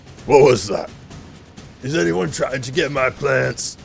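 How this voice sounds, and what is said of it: Deep character voice. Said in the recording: “You hear this deep voice.”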